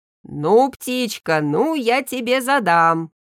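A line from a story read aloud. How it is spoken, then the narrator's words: Shouting. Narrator (Russian): кричал он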